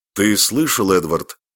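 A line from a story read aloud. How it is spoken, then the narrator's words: Irritated question. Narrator (Russian): раздраженно спросил Оливер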